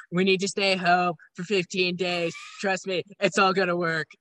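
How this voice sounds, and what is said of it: Imitates another person's voice. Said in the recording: “My Trump impression is probably terrible”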